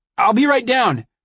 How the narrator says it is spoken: I yelled

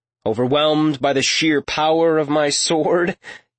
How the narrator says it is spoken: Talion chuckled

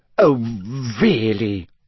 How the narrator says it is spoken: she sputtered, going rather red

